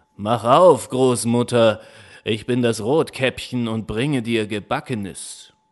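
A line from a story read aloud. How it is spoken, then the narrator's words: Wolf calling. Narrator (German): der Wolf rief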